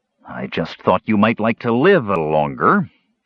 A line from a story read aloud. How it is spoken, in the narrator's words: Caramon growled